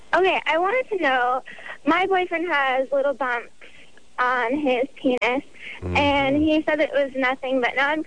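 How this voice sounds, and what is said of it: High, little-girl-like voice. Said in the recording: “Got little girl voice. ... I think that's just a small stature thing.”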